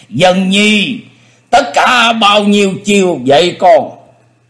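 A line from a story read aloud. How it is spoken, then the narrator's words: Smug, laughing loudly. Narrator (Vietnamese): Lục Chiếu Thần Quân đắc ý cười lớn nói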